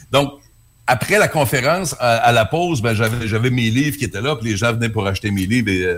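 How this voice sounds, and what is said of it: Quebec French accent. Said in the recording (French): “Ben, au Québec, on dit ... On, trouve ça très séduisant, votre accent”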